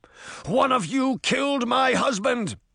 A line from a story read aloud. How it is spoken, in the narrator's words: cried, rising to her feet with clenched fists